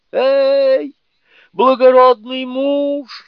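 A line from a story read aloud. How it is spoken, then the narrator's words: Frantic scream, frightened princess. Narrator (Russian): истошным голосом закричала перепуганная принцесса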